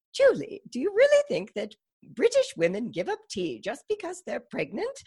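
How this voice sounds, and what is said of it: Imitated British accent. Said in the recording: “I'm about to butcher her accent”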